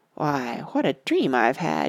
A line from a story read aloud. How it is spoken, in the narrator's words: he muttered